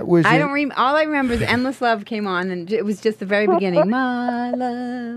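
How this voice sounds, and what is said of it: Notable accent. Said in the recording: “That accent is just awesome.”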